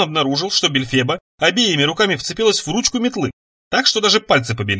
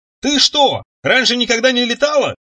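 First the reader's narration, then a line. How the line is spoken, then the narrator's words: Shout. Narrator (Russian): крикнул он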